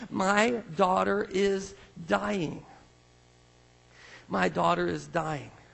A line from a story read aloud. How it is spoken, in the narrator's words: he pleaded earnestly with him